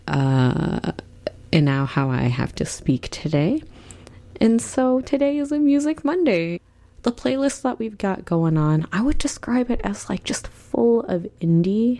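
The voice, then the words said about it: Strained voice, breaking, heavy vocal fry. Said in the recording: “you sound a little bit different. That is because I believe I am in the early stages of losing my voice. My voice keeps breaking when I talk a little bit louder than this. And there's a lot of vocal fry”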